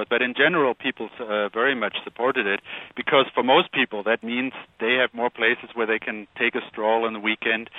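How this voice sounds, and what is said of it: German accent in English. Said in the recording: “As you can tell from my accent, I'm from Germany”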